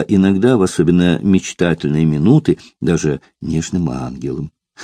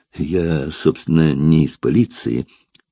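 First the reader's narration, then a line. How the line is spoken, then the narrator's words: Embarrassed mumble. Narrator (Russian): покраснев, пробормотал Фандорин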